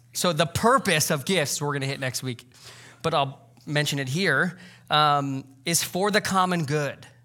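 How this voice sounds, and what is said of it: Congested voice. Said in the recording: “I have a cold.”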